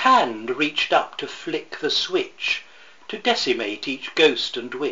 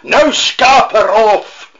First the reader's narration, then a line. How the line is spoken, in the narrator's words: screamed